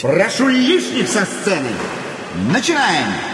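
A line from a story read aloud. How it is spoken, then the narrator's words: Shouted. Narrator (Russian): прокричать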